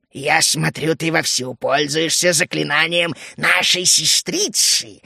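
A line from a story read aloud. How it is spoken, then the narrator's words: Hissing creature. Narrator (Russian): зашипела первая тварь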